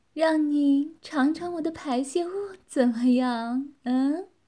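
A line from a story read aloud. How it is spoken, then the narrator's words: Teasing. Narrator (Chinese): 女子调笑地说道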